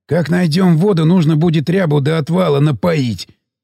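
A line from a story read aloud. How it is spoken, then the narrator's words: Smirking. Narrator (Russian): усмехнулся Сиплый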